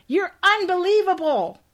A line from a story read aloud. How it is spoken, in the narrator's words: she shouts